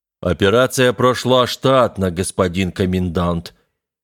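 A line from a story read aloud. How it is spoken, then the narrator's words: Formal official report. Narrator (Russian): официальным тоном доложил Черепаныч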